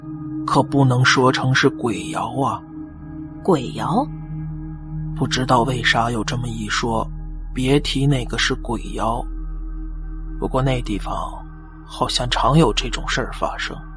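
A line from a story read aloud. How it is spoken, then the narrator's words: Quiet murmured exchange. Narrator (Chinese): 大伯他们小声的交流道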